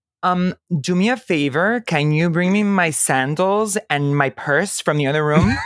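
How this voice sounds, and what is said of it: Exaggerated Miami girl accent. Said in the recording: “Like a super Miami girl.”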